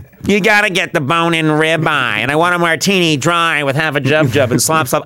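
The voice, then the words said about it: Imitates another person's voice. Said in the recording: “my Roseanne impression”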